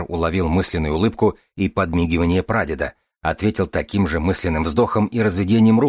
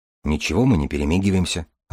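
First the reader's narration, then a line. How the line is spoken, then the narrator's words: Timid objection. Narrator (Russian): робко возразил Дар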